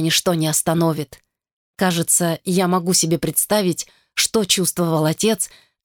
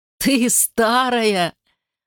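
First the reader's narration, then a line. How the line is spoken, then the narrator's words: Laughing. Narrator (Russian): Он рассмеялся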